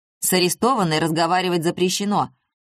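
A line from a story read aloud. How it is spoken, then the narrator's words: Even sterner. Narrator (Russian): еще более строго заявил он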